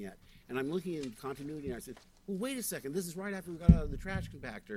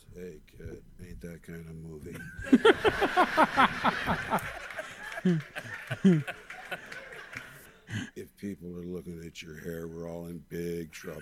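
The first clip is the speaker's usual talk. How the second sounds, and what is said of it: Imitates another person's voice. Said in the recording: “That's a fucking great impression.”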